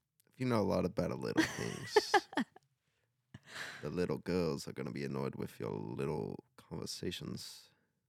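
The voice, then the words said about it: Put-on accent. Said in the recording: “I don't know why I went into that accent.”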